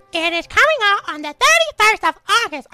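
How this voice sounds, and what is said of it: Elmo impression voice. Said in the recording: “My Elmo accent”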